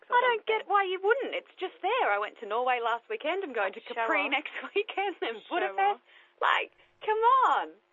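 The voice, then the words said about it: Australian accent. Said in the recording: “you can obviously hear my accent”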